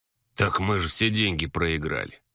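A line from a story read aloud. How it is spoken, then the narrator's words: Sigh after long silence. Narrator (Russian): вздохнул молчавший все это время Денис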